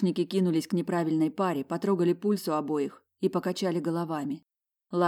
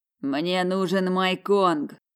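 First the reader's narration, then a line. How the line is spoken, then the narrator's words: Tormented growl. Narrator (Russian): зарычал он спустя 2 часа мучений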